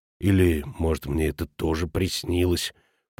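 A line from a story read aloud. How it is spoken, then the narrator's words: Agitated grumble. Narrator (Russian): проворчал растревоженный Футаки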